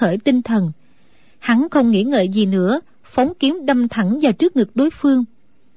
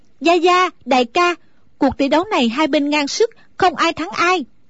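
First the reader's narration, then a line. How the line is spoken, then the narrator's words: Relieved loud call. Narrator (Vietnamese): A Tú thở phào một cái như cất được gánh nặng, nàng lớn tiếng gọi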